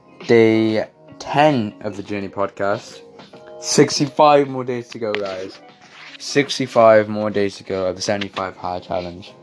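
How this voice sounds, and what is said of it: Tired-sounding voice. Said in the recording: “tell by my voice, but I'm pretty tired”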